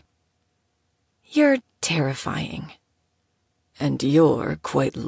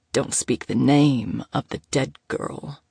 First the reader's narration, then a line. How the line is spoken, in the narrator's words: he growled roughly